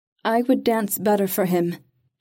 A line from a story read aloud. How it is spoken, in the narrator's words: she said, making her voice clear and strong